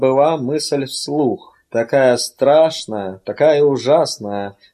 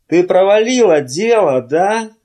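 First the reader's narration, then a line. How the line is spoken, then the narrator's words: Shout. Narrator (Russian): заорал он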